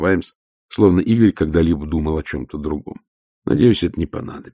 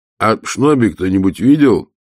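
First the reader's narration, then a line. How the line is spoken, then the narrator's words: Loud question. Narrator (Russian): громко спросил Уэймс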